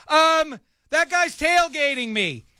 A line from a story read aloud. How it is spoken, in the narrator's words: yell